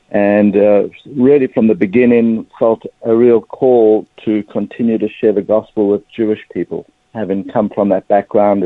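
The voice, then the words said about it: South African accent. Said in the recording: “as you can probably pick up pretty quickly from my accent, I'm a South African Jewish person”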